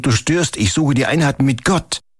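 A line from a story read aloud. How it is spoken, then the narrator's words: Ascetic calling out. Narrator (German): rief der Asket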